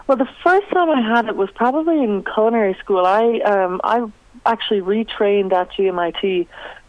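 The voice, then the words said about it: Canadian accent. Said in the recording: “You are Canadian born. People will be able to hear that in the accent.”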